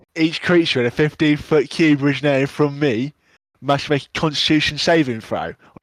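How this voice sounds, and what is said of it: Put-on Cockney accent. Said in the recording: “Now do Cockney.”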